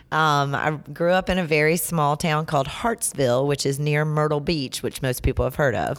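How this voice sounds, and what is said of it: Mild Southern American accent. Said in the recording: “my voice is super Southern sounding. ... You sound mildly Southern, yes.”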